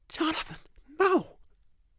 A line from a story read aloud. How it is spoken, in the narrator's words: Her voice was a horrified whisper